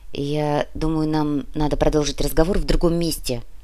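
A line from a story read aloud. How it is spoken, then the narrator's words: Quiet. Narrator (Russian): негромко произнес профессор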